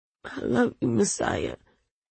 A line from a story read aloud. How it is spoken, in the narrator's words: groaned